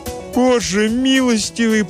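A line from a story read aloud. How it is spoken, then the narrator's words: Moaning mother. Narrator (Russian): простонала мать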